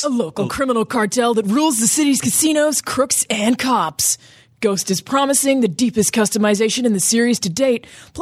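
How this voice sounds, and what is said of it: Dramatic movie announcer voice. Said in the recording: “Can you do this in a movie announcer voice?”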